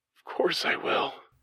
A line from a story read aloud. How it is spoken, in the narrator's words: whispered